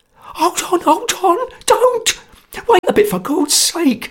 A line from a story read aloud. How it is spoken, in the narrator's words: cried Sotcha in a sweat of terror